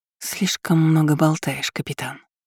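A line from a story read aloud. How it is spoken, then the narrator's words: Purred. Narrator (Russian): мурлыкнула Лу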